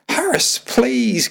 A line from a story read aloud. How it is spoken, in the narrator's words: Chloe begged